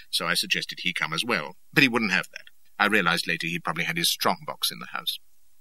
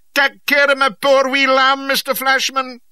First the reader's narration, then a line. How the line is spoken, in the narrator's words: he wailed